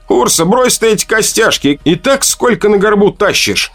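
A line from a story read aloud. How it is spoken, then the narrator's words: Shouting teenage boy. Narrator (Russian): кричал на нее парень лет 16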